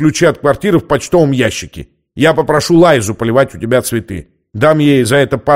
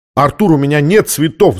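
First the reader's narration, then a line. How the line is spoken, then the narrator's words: Touched, laughing. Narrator (Russian): засмеялся он, тронутый заботой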